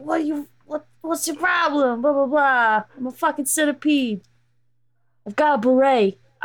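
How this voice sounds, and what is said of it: Character voice with Bronx accent. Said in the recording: “And he has, a Bronx accent. ... That's a Bronx accent”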